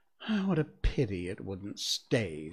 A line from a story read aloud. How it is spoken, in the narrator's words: sighed the lorry